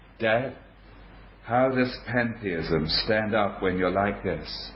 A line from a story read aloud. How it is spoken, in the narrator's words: quietly said to my father